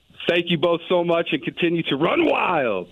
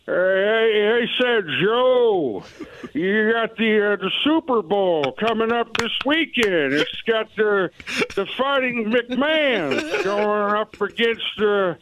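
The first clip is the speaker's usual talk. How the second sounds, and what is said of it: Imitates another person's voice. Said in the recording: “your Joe Biden impression.”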